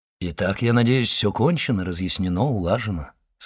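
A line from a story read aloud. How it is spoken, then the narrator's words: Plain. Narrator (Russian): сказал он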